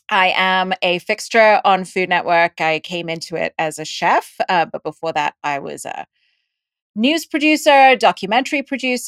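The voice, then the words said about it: Indian and English-school influenced accent. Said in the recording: “I have an accent because I was born in India and I grew up in Dubai and I went to an English school, which is why I have this accent.”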